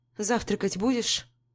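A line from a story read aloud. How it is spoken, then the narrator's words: Dry question. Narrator (Russian): Сухо интересуюсь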